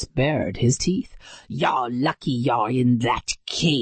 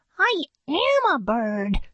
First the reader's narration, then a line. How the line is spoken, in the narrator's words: she chirped